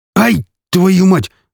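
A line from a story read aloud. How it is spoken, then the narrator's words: Sharp exclamation. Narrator (Russian): воскликнул Михалыч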